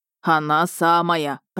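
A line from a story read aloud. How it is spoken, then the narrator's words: Said in a deep bass. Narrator (Russian): пробасил Мирон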